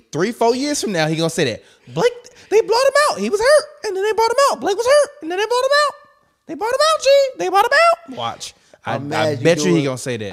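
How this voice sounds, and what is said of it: Imitates another person's voice. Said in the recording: “doing my hot pitch voice”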